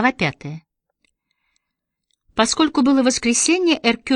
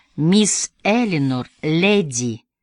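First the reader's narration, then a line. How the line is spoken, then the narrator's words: Slow. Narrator (Russian): медленно проговорил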